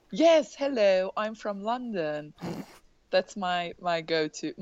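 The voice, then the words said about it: Poor put-on British accent. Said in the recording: “What's my go-to British accent ... That's a train wreck accent.”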